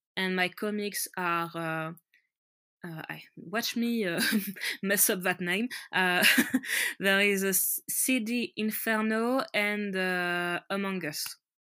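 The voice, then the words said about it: Strong French accent. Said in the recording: “I'm French and my accent is very French. ... Apparently, it gets worse with time. ... the French accent”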